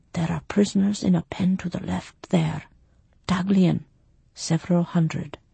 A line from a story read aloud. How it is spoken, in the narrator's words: In a whisper that did not carry 3 feet, told